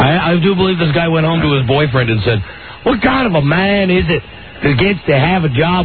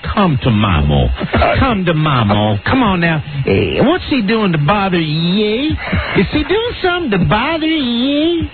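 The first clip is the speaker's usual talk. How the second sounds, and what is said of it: Mocking imitation of caller's accent. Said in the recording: “Are you making fun of my accent?”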